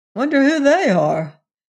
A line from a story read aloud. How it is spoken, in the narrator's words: exclaimed Venters